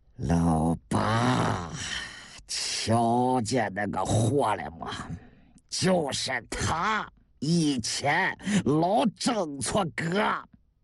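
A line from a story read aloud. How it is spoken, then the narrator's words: Through gritted teeth. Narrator (Chinese): 韩六十三咬牙切齿地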